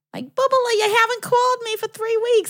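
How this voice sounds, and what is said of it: Imitated New Jersey accent. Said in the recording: “had a beautiful, very New Jersey accent”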